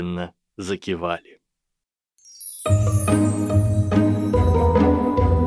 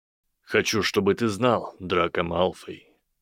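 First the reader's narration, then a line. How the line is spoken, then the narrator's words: Deadly calm voice. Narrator (Russian): произнес силуэт убийственно спокойным голосом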